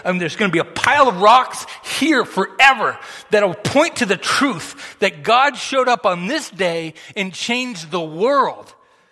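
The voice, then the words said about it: Yelling. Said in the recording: “why is he yelling? That's why I'm yelling.”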